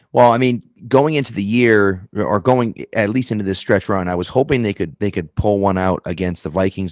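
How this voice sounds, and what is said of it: Mild Boston accent. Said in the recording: “I do appreciate the Boston accent a little bit ... mine is not quite as thick as some other people's, but it's there.”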